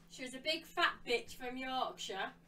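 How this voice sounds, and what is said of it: Yorkshire accent. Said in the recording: “she's even got a Yorkshire accent as well”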